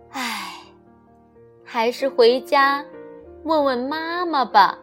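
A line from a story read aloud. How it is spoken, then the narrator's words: Sighing. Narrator (Chinese): 他叹了口气说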